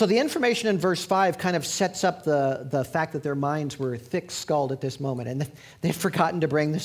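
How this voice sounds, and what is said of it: Usual voice. Nothing is said of it.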